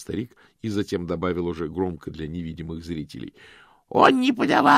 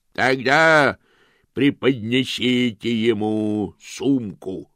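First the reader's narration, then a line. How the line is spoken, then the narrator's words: Booming voice from aside. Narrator (Russian): прогремел голос в стороне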